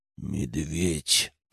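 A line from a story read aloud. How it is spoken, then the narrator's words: Growled. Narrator (Russian): прорычал я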